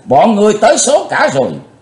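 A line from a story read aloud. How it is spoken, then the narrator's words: Thunderous roar. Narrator (Vietnamese): Quái tà gầm vang tợ sấm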